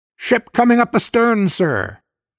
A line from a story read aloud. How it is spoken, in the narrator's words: Above the ringing of the alarm bell, somebody shouted